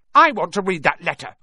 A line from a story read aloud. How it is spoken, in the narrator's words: he said loudly